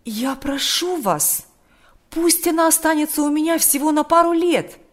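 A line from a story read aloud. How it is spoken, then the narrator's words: Exclaimed. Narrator (Russian): воскликнул отец Кирилл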